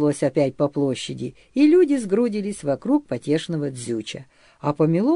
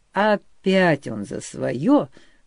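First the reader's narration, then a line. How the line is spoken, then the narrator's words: Grumbled. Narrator (Russian): заворчал Григорий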